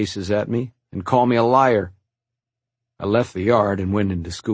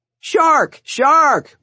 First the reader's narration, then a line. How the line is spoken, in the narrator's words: one of them yelled